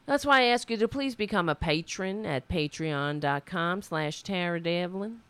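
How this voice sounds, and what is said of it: Put-on Southern US accent. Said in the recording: “I don't know why I'm talking like that, but sometimes you just gotta put on a southern accent”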